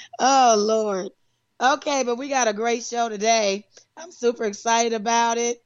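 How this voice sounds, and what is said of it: Strained, worn-out voice. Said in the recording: “Excuse my voice,... can you pray for my voice, please? I've been doing a lot of talking, a lot of laughing, and a lot of, I don't know, I guess hollering.”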